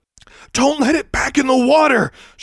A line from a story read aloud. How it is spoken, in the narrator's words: gasped